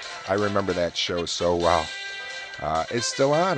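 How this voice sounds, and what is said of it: Usual voice. Nothing is said of it.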